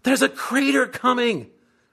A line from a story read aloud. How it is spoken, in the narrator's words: Sandy screams